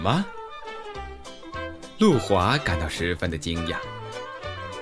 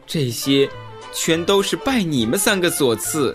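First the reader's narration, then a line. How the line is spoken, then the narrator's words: Long sigh, bitter laugh. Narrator (Chinese): 他突然仰天长叹，苦笑道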